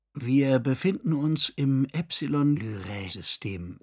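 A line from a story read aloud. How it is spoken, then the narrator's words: Patient storytelling voice. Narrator (German): informierte die Amme mit derselben geduldigen Stimme, mit der Eltern ihren Kindern Geschichten vorlasen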